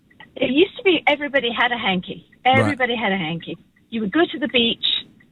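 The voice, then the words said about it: British English accent. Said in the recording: “you're from the UK ... with this accent”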